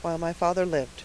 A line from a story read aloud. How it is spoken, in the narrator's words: murmured Harvey, unable to smother his feelings